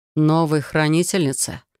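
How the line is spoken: Snorting hmph. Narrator (Russian): хмыкнул Яр

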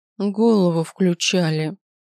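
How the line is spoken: Hostile, through teeth. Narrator (Russian): процедила женщина с неприязнью

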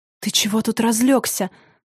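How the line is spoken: Hissing. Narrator (Russian): зашипела она

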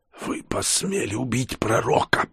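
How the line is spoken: Hoarse rasp. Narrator (Russian): прохрипела

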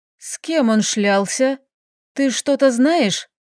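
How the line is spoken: Strained, barely audible. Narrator (Russian): Выдавила я едва слышно

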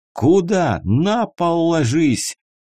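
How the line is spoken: Yelled. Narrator (Russian): заорал Седой

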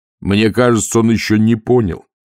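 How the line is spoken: Plain. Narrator (Russian): ответил Муркоу

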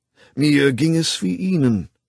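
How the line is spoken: Plain. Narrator (German): sagte der Direktor

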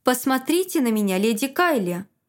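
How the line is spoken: King's perfectly calm speech. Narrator (Russian): Король сказал это абсолютно спокойно

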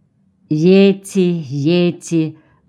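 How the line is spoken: Tender. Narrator (Russian): ласково произносит Орво

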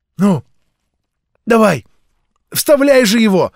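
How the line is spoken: Impatient shout. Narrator (Russian): нетерпеливо крикнул Тимоти

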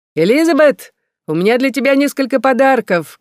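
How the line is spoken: Shouting. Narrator (Russian): кричал Бернард

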